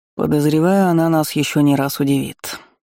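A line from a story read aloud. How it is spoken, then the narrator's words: Gloomy foreboding prediction. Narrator (Russian): мрачно напророчествовал дознаватель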